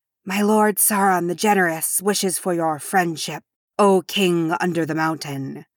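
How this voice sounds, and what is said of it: Hissing, rasping villain voice. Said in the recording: “Its voice hissed and rasped ... in his hissing voice”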